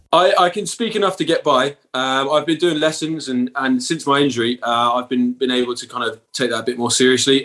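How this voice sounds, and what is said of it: Bristolian English accent. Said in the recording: “my Bristolian accent”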